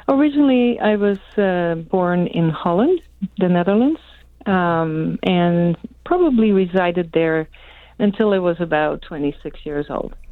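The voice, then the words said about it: Slight foreign accent. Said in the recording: “I just heard a little bit of an accent in your voice”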